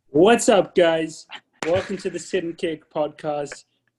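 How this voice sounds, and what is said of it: Hyped YouTuber-style intro voice. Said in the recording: “You sounded very much like a YouTuber”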